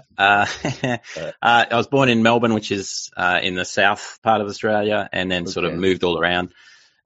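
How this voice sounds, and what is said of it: Australian accent. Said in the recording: “I'm from Australia. That's the wonderful accent that you can hear.”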